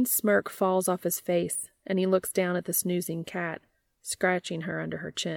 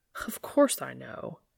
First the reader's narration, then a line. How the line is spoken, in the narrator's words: scoffs